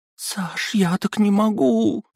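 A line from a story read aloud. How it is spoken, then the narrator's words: Girl pleading. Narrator (Russian): взмолилась девчонка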